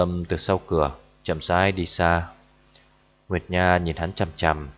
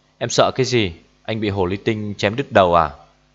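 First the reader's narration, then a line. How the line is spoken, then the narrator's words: Anxious, angry. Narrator (Vietnamese): Nguyệt Nha gấp đến mức tức giận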